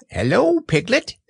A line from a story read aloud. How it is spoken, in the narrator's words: he squeaked